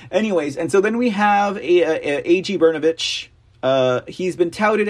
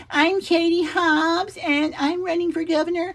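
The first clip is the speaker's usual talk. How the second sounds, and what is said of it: Impression of Katie Hobbs. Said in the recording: “I keep wanting to do her voice.”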